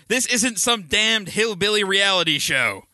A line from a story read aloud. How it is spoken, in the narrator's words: bystander yelled back